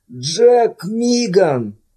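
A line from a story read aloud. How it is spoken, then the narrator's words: Groaning. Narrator (Russian): простонал Дэниел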